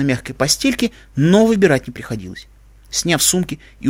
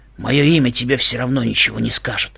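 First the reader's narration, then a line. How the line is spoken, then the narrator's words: Gruff muttering. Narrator (Russian): буркнул незнакомец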